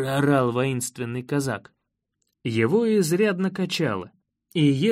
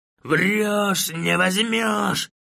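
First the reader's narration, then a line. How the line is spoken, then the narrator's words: Enraged shout. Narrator (Russian): выкрикнул разбушевавшийся казак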